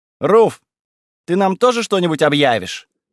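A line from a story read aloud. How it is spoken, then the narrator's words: Loud question. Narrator (Russian): громко поинтересовалась Верона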